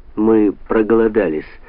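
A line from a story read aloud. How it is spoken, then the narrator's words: Plain, in English. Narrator (Russian): сказала Шейла по-английски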